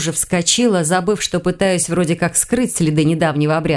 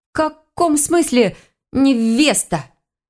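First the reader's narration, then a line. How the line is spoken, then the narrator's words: Stammering question. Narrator (Russian): спросила, внезапно начав заикаться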